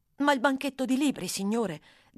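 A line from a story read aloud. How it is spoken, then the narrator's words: Plain. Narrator (Italian): disse Oliver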